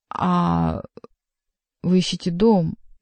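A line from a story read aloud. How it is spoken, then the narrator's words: Drawling. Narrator (Russian): протянул Бюсси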